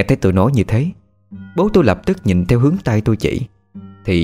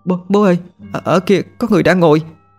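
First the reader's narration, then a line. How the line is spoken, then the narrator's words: Frightened stammer. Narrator (Vietnamese): Tôi trung lên vì sợ, miệng lắp bắp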